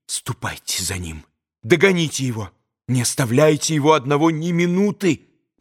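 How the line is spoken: Rapid whisper. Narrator (Russian): быстро зашептала она

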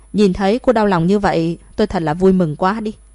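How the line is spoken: Gloating loud laughter. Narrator (Vietnamese): tiếng cười lớn đắc ý của Thẩm Ân Ân

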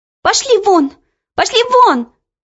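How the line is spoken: Shouting. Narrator (Russian): закричала она

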